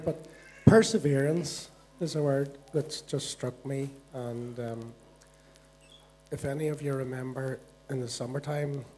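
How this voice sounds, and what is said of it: Hoarse, failing voice. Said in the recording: “excuse my voice, I'm losing it a wee bit here”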